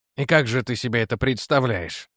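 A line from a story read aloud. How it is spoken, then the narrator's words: Grumbled. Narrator (Russian): буркнул Холден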